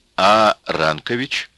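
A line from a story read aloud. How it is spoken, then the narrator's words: Plain. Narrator (Russian): спросил Сталин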